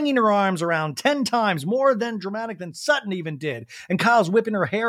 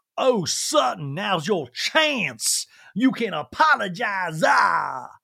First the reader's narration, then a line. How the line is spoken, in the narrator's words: Sutton's dramatically waving her arms like